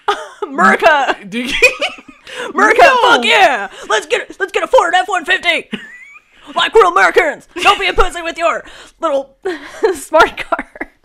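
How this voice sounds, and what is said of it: Loud strained stereotypical American voice. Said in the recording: “the Merca voice ... it hurts my throat”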